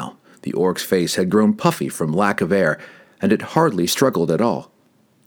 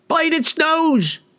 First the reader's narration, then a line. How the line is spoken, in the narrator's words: yelled another